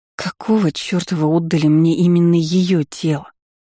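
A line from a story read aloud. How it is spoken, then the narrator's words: Anguished moan. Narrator (Russian): С тоской простонала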